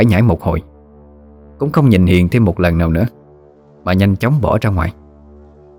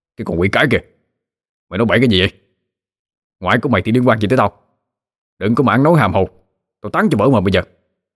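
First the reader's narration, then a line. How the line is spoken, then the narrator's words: Guilty startled shout. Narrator (Vietnamese): chột dạ quát lên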